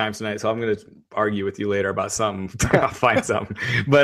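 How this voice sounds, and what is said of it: Usual voice. Nothing is said of it.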